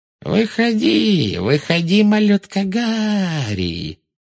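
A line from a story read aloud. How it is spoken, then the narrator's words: Thin mocking singsong. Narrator (Russian): пропела она тонким издевательским голоском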